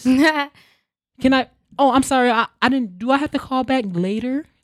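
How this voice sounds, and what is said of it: Put-on formal polite phone voice. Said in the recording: “you have to put on the white voice ... you got to put on a different voice”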